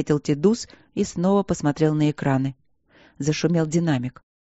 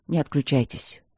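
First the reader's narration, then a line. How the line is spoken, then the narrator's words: Muffled mumble over speakers. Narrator (Russian): глухо пробормотало в динамиках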